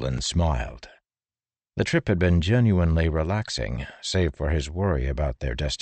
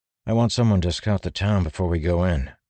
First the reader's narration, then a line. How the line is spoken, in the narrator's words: Adolin said